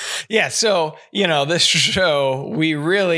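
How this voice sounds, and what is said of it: Usual voice. Nothing is said of it.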